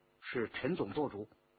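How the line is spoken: Low voice. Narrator (Chinese): 一个人迎过来低声说

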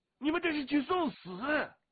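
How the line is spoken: Trembling sudden shout. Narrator (Chinese): 荀鹤的嘴唇哆嗦着，突然大声的喊道

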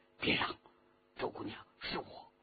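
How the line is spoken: Low voice. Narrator (Chinese): 低声说

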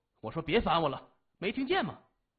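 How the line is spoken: Muffled loud voice. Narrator (Chinese): 把头一蒙，大声说

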